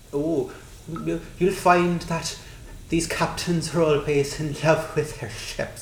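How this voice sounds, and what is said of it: Deliberately bad Harry Mudd accent. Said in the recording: “that accent was better than Harry Mudd's accent ... I deliberately did it bad ... Still better, though.”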